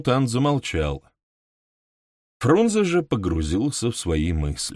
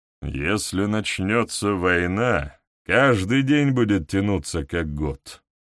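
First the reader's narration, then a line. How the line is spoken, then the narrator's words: Gloomy. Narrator (Russian): мрачно заметил нарком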